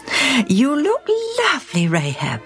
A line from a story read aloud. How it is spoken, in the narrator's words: Shira exclaimed